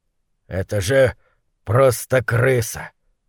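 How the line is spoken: Muttering. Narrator (Russian): пробормотал он

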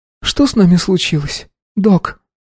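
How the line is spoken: Sobbing girl. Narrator (Russian): всхлипнула девушка

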